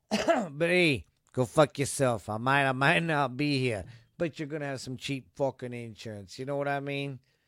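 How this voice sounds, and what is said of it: Bad tough guy voice. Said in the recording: “That's not a very good tough guy impression.”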